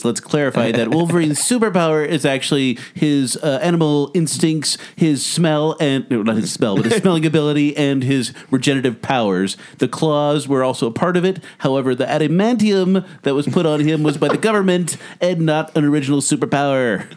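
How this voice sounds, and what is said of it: Nerdy voice. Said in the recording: “Go to my nerd voice.”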